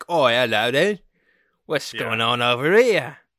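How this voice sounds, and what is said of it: Strong English accent. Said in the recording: “a strong English accent”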